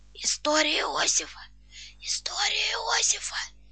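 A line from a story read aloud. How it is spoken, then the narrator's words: Desperate whisper. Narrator (Russian): Шепчет мне отчаянным шепотом Жули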